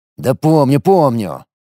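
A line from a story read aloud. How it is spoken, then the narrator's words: Irritated retort. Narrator (Russian): раздраженно кинул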